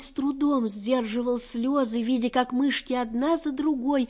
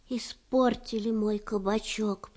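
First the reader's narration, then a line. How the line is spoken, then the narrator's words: Whisper. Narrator (Russian): прошептал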